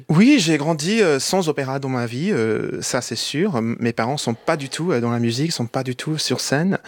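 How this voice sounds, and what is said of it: French with slight American accent. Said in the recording (French): “vous parlez parfaitement français, on entend une pointe d'accent américain”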